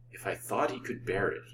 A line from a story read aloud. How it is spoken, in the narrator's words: he murmured